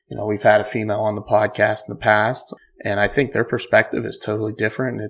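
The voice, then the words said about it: Congested, stuffed-up voice, quieter than usual. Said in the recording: “I'm stuffed up, so I'm not screaming today. ... Usually I'm screaming.”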